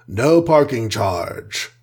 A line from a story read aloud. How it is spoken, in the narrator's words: rumbled Goliath with a straight face